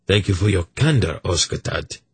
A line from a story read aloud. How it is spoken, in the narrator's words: Urgot said gravely